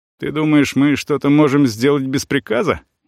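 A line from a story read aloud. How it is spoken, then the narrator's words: Laughing at the thought. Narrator (Russian): Ербол даже сам посмеялся от такой мысли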